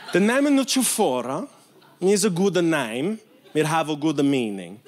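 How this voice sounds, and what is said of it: Put-on thick Italian accent. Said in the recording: “he's got the thick accent... I'm not very good at the accent, but I'm going to give it a go”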